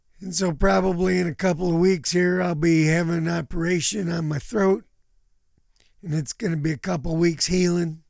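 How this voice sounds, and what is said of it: Hoarse, rough voice. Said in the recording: “I went to the doctor about my voice ... I have a polyp on my larynx ... the reason I'm hoarse is because my vocal cords are rubbing against it”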